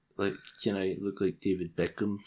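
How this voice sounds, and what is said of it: Funny voice sounding like Donald Trump. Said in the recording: “Why do you sound like Donald Trump? ... I wasn't trying to sound like Trump. Just making a funny voice.”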